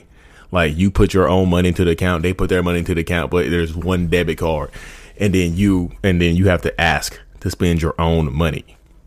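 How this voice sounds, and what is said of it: Breathless, talking too fast. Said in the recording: “I'm out of breath. I'm trying to talk too fast. I'm out of breath.”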